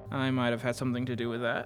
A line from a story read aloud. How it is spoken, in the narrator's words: I muttered